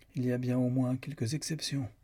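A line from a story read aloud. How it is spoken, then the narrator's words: Cold. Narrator (French): dit froidement Lucan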